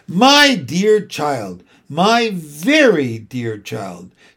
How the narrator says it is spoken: said a small, delicate, hissing voice

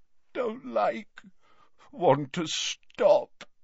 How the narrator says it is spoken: moaned Dumbledore

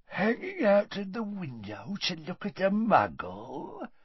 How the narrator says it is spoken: said Gaunt quietly

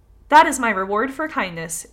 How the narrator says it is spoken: exclaimed the fox

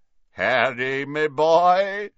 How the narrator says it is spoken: said a booming voice

